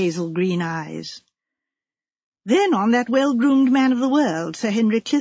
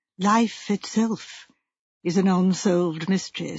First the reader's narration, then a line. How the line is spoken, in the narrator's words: said the clergyman gravely